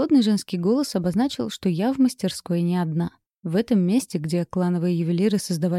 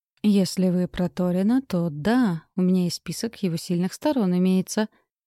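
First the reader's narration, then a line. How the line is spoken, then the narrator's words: Uncertain reply. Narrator (Russian): неуверенно отозвалась я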